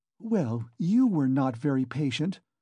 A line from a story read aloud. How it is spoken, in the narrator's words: Pulcheria Alexandrovna caught her up, hotly and jealously